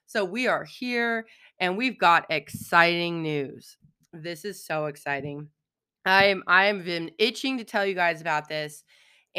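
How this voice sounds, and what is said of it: Froggy, hoarse voice. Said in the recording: “I'm kind of froggy ... a little bit less froggy for your ears ... Froggy Voice”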